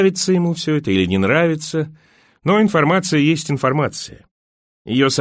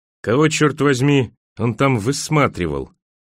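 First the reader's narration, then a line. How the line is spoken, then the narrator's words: Muttering. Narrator (Russian): пробормотал Бахман, обращаясь к Эрни Фрай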